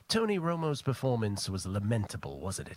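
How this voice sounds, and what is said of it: Impression of a podcast co-host. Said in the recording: “That's a good impression.”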